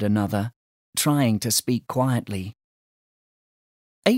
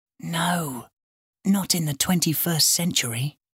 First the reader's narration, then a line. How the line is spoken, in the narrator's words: whispered April